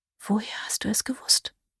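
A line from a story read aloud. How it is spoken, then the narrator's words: Whispered. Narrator (German): flüsterte sie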